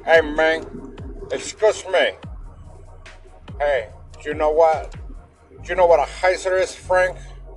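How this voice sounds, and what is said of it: Imitates a film character's Cuban accent. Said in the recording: “What kind of Cuban accent is that anyways?”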